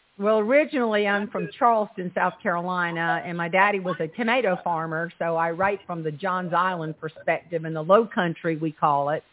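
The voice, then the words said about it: Slight Southern twang. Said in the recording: “you have a little twang and you're writing about the South”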